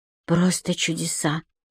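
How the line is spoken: Muttering. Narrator (Russian): пробормотала Юлия Николаевна

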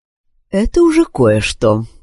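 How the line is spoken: Calm nurse. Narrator (Russian): спокойно ответила медсестра

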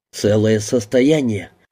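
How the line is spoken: Sigh. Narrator (Russian): вздохнул сын

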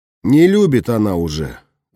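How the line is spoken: Sighing. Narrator (Russian): вздохнул я

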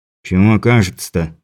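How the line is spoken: Grumbled. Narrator (Russian): буркнул Муха

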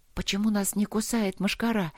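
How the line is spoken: Whispered question. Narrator (Russian): шепотом спросила Алина у лорда Трота

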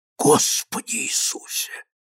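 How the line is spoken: Whisper. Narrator (Russian): прошептал тот

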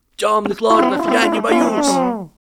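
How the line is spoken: Shouted. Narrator (Russian): Гарри Поттер выкрикнул

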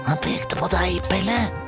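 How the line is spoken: Pointed whisper. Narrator (Norwegian): hvisker Pysa, som om Pelle ikke visste det

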